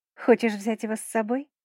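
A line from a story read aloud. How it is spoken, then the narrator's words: Smirking. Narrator (Russian): хмыкнула я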